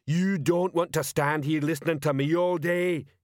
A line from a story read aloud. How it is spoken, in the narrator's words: he bellowed